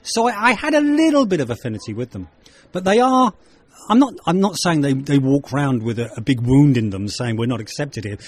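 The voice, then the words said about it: English accent. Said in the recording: “in England, I have an English accent ... Over here in Ireland, I have an English accent”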